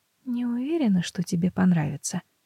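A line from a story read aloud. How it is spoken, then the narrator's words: Barely audible. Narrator (Russian): говорит чуть слышно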